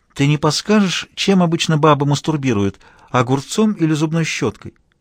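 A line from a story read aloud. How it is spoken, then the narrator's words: Honeyed sweet voice. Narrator (Russian): Аня медовым голоском осведомилась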